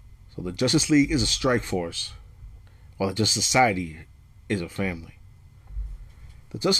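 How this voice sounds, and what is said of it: Usual voice. Nothing is said of it.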